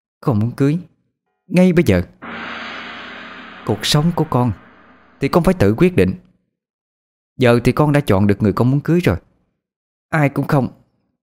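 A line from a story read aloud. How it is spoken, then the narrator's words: Harsh, strained reply. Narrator (Vietnamese): Cô gằn giọng đáp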